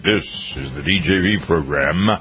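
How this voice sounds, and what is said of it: Deep radio announcer voice. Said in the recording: “I like my deep announcer voice.”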